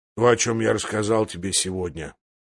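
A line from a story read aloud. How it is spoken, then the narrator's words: Gruffer than usual. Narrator (Russian): проговорил еще более грубо, чем обычно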